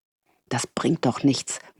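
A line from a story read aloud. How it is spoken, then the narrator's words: Frustrated mutter. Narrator (German): murmelte sie frustriert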